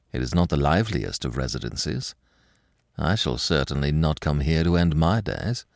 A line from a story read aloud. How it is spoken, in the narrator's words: muttered Lupin